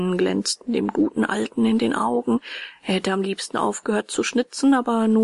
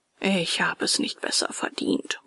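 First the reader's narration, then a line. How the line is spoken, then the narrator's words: Murmured. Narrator (German): murmelte er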